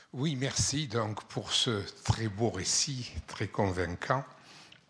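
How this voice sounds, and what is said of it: Non-local French accent. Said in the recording (French): “vous n'avez pas un accent d'ici, vous.”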